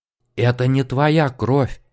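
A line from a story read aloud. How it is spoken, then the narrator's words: Trembling voice. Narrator (Russian): дрожащим голосом озвучил он свою догадку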